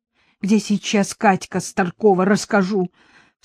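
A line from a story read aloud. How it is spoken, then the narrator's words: Sobbing with hatred. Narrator (Russian): всхлипнула Софья, с ненавистью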